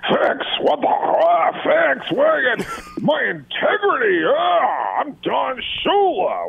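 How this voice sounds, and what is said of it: Growly imitation of another person's voice. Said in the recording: “best Don Shula impression you'll ever hear on radio ... he just had this growl to him”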